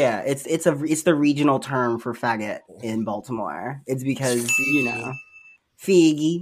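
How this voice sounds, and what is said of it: Usual voice. Nothing is said of it.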